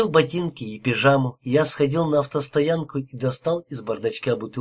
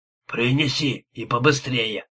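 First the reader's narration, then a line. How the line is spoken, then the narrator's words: Growl. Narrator (Russian): прорычал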